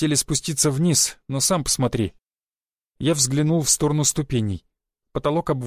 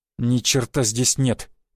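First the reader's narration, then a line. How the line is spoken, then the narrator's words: Through gritted teeth. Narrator (Russian): процедила Роксана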